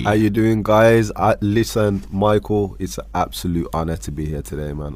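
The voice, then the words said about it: Rich radio-style voice. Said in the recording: “you got a sick radio voice ... Add that little timber there”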